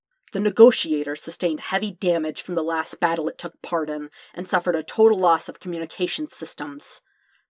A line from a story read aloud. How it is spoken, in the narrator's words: Windu said icily